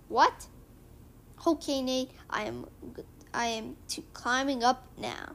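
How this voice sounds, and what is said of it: Character voice with cute accent. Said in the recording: “don't you just like his cute accent?”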